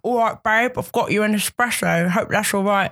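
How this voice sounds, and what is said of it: Imitates another person's voice. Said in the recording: “that impression ... Sounds like the Elephant Man.”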